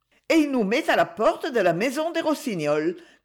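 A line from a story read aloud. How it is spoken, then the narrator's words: Cheerful conclusion. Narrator (French): conclut gaiement Daisy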